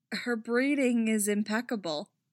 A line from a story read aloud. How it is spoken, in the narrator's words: Hera says, although the effort to repress her laughter is nearly choking her now